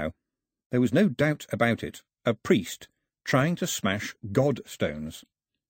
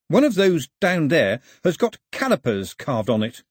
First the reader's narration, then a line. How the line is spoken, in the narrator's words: said Pilu cheerfully